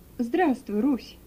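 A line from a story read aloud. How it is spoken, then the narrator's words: Tender, affectionate. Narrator (Russian): ласково проговорил он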